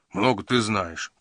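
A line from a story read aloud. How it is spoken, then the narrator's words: Grumbling. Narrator (Russian): проворчал Джина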